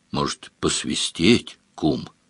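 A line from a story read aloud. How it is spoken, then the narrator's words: Quiet question, thin man. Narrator (Russian): тощий тихо спросил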